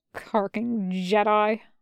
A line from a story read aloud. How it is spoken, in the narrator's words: Boyle grumbled behind him